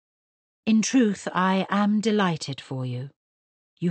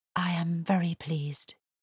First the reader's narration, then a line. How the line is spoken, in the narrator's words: he said softly